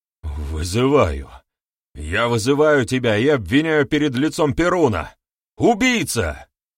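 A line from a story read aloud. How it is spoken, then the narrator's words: Strained restrained shout. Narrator (Russian): выкрикнул ученик, с трудом сдерживаясь, чтобы не перейти на слишком высокие ноты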